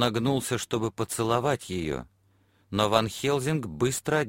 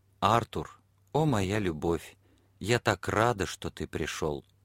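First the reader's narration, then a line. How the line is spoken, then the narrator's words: Soft whisper. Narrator (Russian): тихо прошептала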